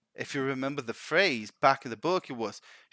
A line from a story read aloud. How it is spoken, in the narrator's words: she chuckled